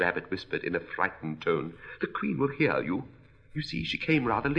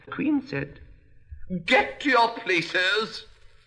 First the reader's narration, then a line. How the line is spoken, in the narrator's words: shouted the Queen in a voice of thunder